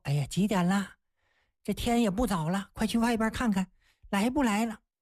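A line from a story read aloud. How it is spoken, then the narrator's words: Anxious, sighing. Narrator (Chinese): 就很着急呀，唉声叹气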